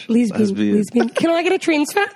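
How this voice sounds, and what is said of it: Put-on New Zealand accent. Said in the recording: “New Zealand accent, but it won't be good ... That's pretty good.”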